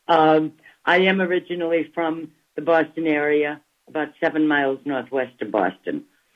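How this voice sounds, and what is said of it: Boston-area Massachusetts accent. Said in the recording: “So does Massachusetts. ... I literally was born a half a mile from Harvard Square. So if that doesn't give you my accent, nothing will.”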